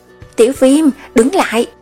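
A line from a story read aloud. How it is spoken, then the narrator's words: Shout. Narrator (Vietnamese): Theo tiếng quát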